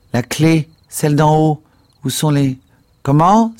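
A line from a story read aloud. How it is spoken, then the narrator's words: Exclaiming. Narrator (French): s'écria-t-il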